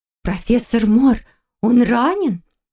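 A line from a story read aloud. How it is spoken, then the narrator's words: Frightened mumble. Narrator (Russian): испуганно пробормотала Валерия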